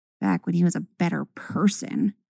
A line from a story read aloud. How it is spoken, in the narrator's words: Ahsoka mutters